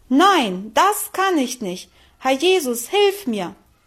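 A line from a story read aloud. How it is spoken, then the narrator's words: Loud call. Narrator (German): rief sie laut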